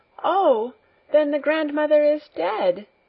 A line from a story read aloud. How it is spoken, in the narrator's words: Heidi had hardly begun a tale about a dying grandmother before she cried out